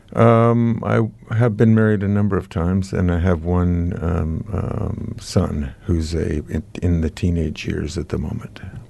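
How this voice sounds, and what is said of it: American accent. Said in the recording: “old American ... my accent gives me my origins away”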